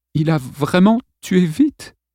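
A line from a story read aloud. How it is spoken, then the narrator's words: Trembling question. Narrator (French): demanda Lawrence d'une voix tremblante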